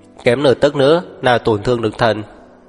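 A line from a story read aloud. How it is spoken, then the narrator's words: Clear but cold female voice. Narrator (Vietnamese): thanh âm của nữ nhân trong trẻo nhưng lạnh lùng lại vang lên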